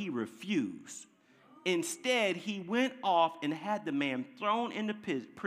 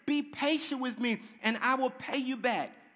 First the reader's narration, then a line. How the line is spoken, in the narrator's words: fell on his knees, begged him